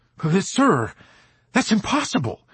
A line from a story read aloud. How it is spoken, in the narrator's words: he blurted out